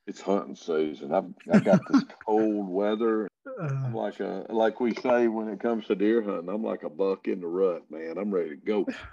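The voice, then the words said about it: Slight Southern American accent. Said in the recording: “I'm catching a little bit of a Southern accent.”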